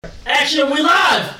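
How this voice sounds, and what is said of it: Shouting excitedly. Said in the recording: “Why are you yelling?”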